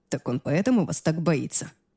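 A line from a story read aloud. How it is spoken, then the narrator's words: Quiet laugh. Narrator (Russian): тихо засмеялся Аарон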